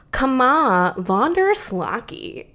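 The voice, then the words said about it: Odd put-on voice. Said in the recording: “I'm getting like a weird voice that's coming out. ... Yeah, you are.”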